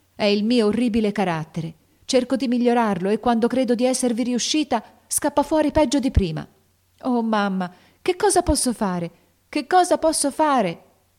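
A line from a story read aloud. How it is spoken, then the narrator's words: Desperate exclamation. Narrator (Italian): esclamò la povera Jo con accento disperato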